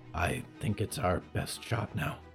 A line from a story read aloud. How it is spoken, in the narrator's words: Olivier whispered